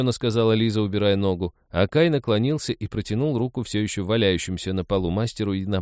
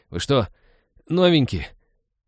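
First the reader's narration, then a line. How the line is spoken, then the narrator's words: Disparaging groan. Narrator (Russian): Уничижительно простонал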